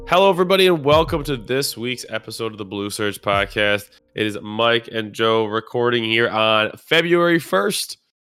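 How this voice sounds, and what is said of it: Sounds sick. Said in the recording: “If you cannot tell by my voice, I am homesick.”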